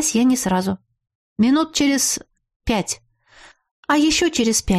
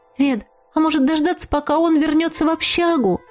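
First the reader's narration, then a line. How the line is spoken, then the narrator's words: Timid question. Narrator (Russian): робко спросила Рада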